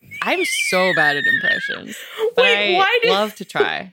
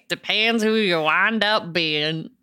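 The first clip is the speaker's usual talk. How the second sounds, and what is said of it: Put-on country twang. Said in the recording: “Why did that get a country twang?”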